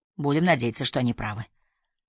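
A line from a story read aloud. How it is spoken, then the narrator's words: Muttered. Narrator (Russian): пробормотал Хансен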